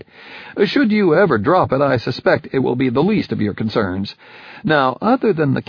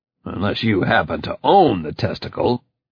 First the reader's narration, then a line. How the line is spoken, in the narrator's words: I growled